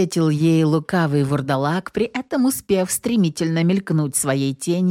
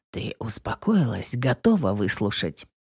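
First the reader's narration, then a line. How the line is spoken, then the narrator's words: Sighing, through gritted teeth. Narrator (Russian): Белинда со вздохом процедила сквозь зубы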